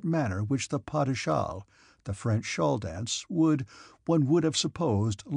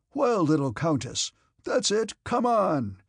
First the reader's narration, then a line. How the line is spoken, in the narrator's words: cried Uncle with a joyous laugh